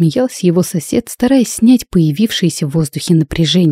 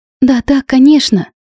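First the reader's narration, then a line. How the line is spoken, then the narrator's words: Slightly frightened. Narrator (Russian): чуть испуганно произнесла Надя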